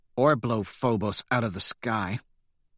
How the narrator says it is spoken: Holiday mutters

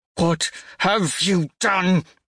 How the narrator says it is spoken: I snarl

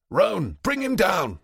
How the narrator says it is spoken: shout

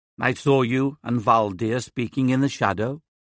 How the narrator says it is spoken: says

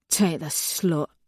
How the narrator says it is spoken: mutters

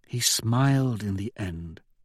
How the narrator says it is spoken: she says softly

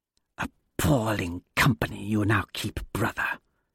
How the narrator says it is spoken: Tharsis hisses to Apollonius

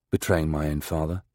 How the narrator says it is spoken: says quietly

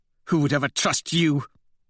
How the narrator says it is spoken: Thistle snaps

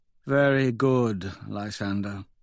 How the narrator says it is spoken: says sadly

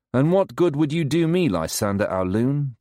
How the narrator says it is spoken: Dido asks

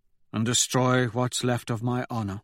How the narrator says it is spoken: he asks quietly

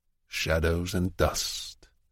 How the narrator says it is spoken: murmurs without irony

